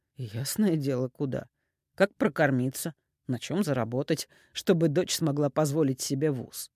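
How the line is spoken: Calm, measured. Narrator (Russian): Игорь говорил спокойно и размеренно

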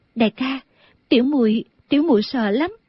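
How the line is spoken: Trembling. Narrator (Vietnamese): A Tú run run nói

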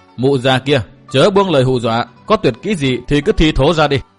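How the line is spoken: Laughing loudly. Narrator (Vietnamese): Chàng cười to nói

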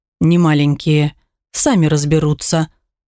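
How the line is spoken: Grumbling. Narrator (Russian): буркнул

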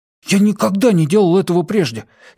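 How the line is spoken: Frightened warning. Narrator (Russian): испуганно предупредил Кювей

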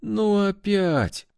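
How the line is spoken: Weary moan. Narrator (Russian): Устало простонала я

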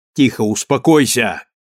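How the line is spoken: Shout. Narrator (Russian): крикнул Копытин

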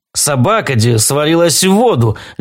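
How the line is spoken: Babbling. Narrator (Russian): лепетал Клод

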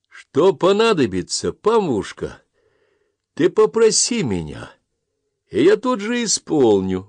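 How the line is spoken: Sudden cheerful conviction. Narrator (Russian): вдруг весело и убежденно сказал Тимофей

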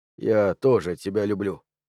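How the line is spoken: Plain. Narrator (Russian): сказал я

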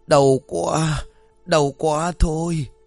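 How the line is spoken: Groaning in pain. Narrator (Vietnamese): Ông Sơn đông bụng rên rỉ

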